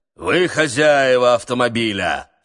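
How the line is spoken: Thunderous question. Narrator (Russian): спросил он громовым голосом

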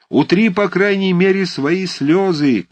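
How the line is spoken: Shouting through laughter. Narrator (Russian): крикнул ему Берсенев и не мог удержаться от смеха

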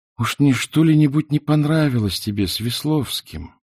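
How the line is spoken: Timid smiling question. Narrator (Russian): сама, робко улыбаясь, спросила

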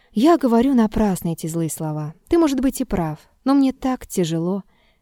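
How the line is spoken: Quiet weary sigh. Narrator (Russian): Петр вздохнул и сказал тихо, точно усталый

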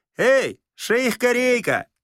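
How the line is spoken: Shout. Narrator (Russian): крикнул Остап

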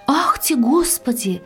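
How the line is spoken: Shout. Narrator (Russian): закричала она

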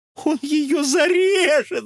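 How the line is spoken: Shout. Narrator (Russian): закричал подлинник

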